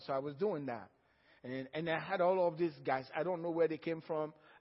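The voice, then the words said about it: African accent. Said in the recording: “one of them heard my accent. He said, Are you from Africa? ... I said, Yeah, I'm from Africa.”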